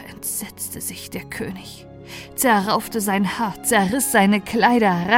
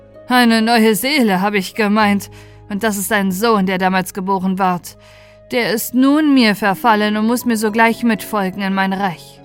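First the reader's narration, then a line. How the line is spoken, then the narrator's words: Sneering call. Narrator (German): Der Fremde aber wies es hohnlächelnd zurück und rief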